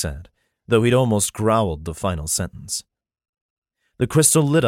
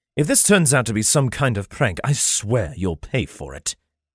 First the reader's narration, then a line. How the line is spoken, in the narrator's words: he spat